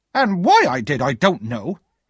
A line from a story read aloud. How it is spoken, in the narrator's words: my sister exclaimed